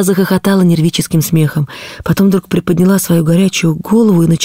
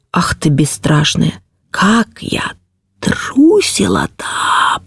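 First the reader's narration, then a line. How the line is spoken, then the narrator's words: Drawling princess. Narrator (Russian): протянула княжна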